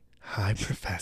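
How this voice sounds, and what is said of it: Imitated sexy, distinctive woman's voice. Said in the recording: “my wife has a very distinctive voice. It's very, very sexy voice.”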